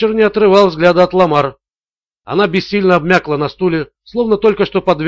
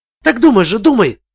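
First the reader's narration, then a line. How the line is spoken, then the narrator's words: Exclaimed. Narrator (Russian): воскликнула Ламар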